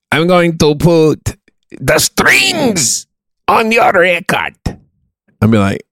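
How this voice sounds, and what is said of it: Put-on Ukrainian accent. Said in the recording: “the guy that works at the taqueria has a Ukrainian accent.”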